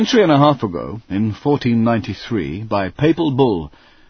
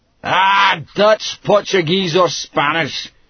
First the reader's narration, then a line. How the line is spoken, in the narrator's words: Cambrai shouted back